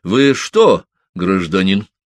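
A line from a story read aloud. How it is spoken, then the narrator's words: Stern question. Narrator (Russian): строго спросил дежурный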